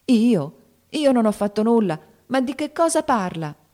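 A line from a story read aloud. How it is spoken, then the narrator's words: Aghast shout. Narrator (Italian): gridò Joe esterrefatta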